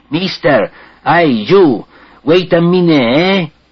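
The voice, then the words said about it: Nasty liquid European accent. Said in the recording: “speaks English with some liquid, unspeakably nasty European accent.”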